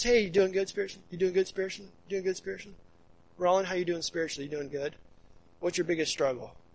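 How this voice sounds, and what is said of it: Rushed, fast-paced questions. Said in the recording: “I said it fast.”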